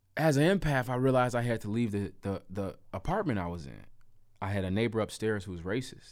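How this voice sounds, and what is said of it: African-American English dialect. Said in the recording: “couldn't tell from my dialect, I'm an African-American male living in the United States of America”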